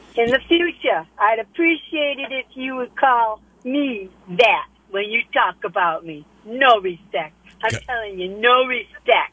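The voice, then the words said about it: Put-on Buffalo accent. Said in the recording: “that is a spot-on Buffalo accent”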